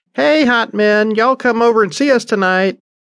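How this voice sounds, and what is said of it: High-pitched voice calling out. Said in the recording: “a high voice rang above the general din”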